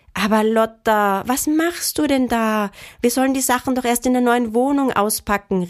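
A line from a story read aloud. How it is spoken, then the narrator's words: Horrified cry. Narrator (German): rief Mama entsetzt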